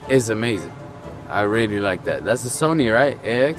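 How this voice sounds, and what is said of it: American accent. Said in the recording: “You're talking in an American accent. ... You're talking in like an American accent.”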